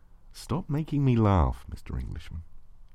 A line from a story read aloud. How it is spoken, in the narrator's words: you said softly